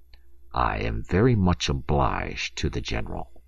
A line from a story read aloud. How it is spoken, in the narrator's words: muttered Lieutenant Feraud through his teeth